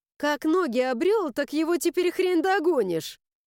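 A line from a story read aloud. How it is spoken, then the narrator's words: Laughing. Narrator (Russian): Засмеялась Лиля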